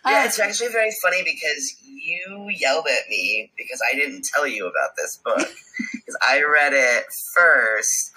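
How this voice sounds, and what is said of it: Rough, growly voice from illness. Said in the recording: “I am sick. I don't know if my voice is as rough as it sounds to me. ... You're a little bit growly ... a little bit growly.”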